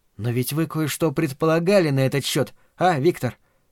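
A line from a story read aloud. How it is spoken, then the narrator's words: Quiet question. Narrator (Russian): так же тихо спросила Марина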